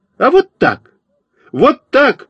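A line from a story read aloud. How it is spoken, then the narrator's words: Indignant shout. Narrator (Russian): возмущенно закричал я на Фокину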